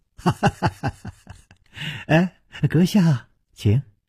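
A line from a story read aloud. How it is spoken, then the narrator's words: Slight smile. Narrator (Chinese): 冷秋魂微微一笑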